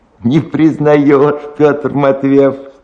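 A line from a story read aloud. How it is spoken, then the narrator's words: Question with thin laugh. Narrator (Russian): спросил дед и тонко засмеялся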